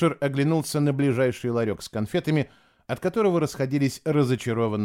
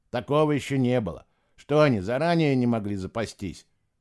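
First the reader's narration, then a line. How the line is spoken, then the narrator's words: Grumbling. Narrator (Russian): ворчал приятель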